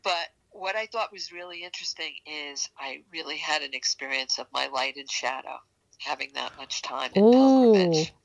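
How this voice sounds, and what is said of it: New York accent. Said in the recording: “You'll probably hear my New York accent here because I'm getting excited.”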